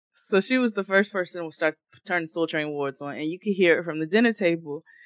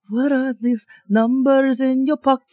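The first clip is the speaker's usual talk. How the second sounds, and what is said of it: Imitates a heavy non-local accent. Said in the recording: “she was not from here. She had a very heavy accent”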